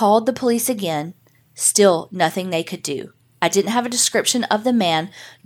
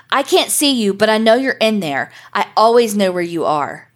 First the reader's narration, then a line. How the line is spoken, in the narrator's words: a male voice screaming